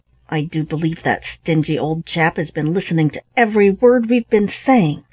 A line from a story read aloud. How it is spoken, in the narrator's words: A feeling of anger instantly rose within me, and I exclaimed, loud enough for him to hear